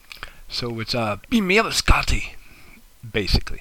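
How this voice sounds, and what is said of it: Deliberately bad put-on accent. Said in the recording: “That's my horrible accent.”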